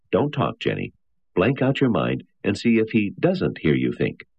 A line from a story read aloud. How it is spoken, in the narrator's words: Berkowitz said dryly